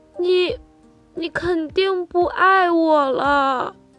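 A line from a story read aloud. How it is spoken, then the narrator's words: Crying. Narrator (Chinese): 小猴子哭着说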